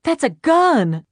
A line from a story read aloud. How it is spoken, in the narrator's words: she gasped